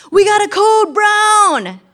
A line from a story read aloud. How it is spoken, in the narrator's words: my husband yelling across the house